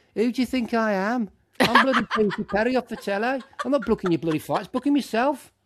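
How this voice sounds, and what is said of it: Feisty put-on accent. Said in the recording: “The accent.”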